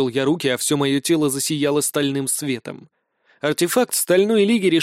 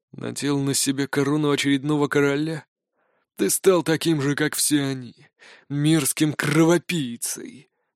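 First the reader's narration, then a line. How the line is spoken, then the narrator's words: Angry whisper. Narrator (Russian): Зло прошептал лекарь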